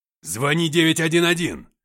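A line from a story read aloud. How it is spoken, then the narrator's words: Shouting. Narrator (Russian): закричал дочери отец Вики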